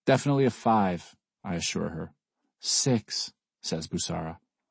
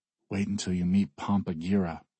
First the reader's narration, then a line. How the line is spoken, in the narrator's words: I whisper to Bussara